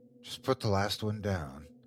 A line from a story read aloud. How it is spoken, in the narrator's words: he replied, his voice low to keep from waking Jeffrey and Michael